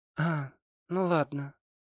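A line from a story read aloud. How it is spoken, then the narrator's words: Reassured, calmer. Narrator (Russian): успокоилась Лидия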